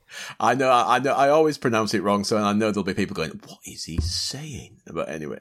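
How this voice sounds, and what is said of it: Yorkshire English accent. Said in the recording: “I blame my Yorkshire ... my Yorkshire accent.”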